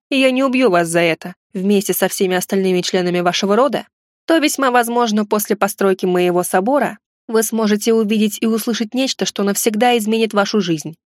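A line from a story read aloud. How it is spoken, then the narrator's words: Snorting. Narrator (Russian): хмыкнул я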